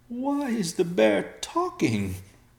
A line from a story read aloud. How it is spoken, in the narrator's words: the mustache man whimpered